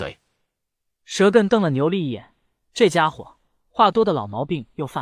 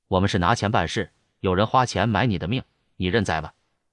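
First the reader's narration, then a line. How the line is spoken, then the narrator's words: Cold. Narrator (Chinese): 牛力冷声说道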